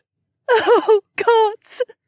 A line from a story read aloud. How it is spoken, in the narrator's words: She sobbed